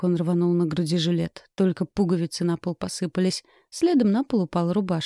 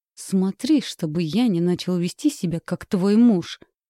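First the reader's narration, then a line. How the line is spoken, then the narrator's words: Hissed through teeth. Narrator (Russian): процедил сквозь зубы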